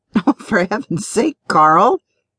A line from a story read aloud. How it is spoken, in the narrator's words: Bloom laughing